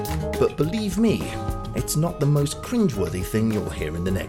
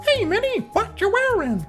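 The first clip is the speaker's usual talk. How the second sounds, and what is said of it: Poor Mickey Mouse cartoon voice. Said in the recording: “my terrible Mickey Mouse impression”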